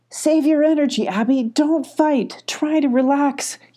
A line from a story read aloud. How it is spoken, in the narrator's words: yelled Molly